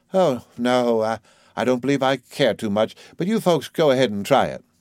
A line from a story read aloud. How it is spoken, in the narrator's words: smiled in a washed-out manner and sighed